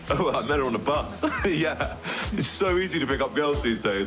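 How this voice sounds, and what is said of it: British English accent. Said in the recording (French): “vous l'avez entendu à l'accent, c'est Fleabag, c'est une série britannique”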